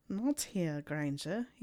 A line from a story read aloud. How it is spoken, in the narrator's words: said huskily